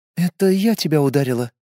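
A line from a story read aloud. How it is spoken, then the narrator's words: Quiet young woman. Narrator (Russian): тихо сказала девушка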